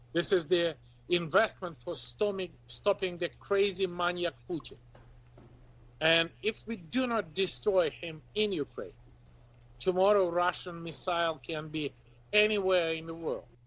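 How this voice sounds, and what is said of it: Speaks English with a foreign accent. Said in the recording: “despite the accent”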